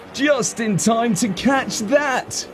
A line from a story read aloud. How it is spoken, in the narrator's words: he called out gleefully